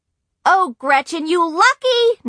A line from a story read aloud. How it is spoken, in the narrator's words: Nancy shrieked